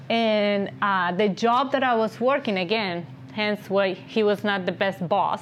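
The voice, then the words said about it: Speaks with a noticeable accent. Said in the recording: “So as you can hear, I have an accent. ... I had a little bit more of a thicker accent.”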